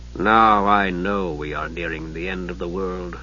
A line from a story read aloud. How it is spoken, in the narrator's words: Dalimar muttered